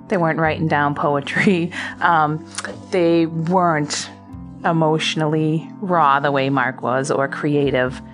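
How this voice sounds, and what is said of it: Boston accent. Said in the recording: “my bad Boston accent,... I grew up in South Boston”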